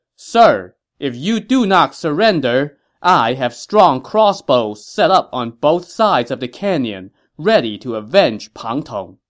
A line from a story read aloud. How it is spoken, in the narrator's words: Zhuge Liang called out to Li Yan from atop a hill